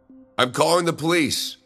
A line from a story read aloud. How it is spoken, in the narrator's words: I shouted